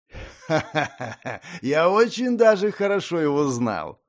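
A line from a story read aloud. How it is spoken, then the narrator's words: Laughing. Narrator (Russian): рассмеялся Хантер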